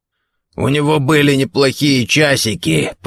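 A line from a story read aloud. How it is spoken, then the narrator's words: Hoarse wheeze. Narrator (Russian): прохрипел Гордон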